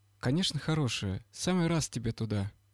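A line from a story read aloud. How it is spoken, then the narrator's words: Thoughtful, sighing. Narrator (Russian): думает, потом вздохнув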